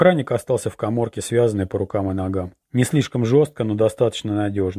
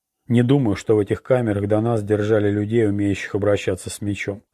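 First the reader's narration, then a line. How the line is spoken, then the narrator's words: Plain. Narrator (Russian): ответил Орландо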